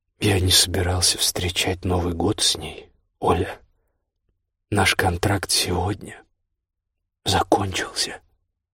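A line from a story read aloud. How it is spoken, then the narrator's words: Unexpectedly calm. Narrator (Russian): сказал неожиданно спокойно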